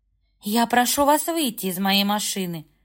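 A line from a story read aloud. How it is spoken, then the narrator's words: Firm voice. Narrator (Russian): Твердым голосом сказала она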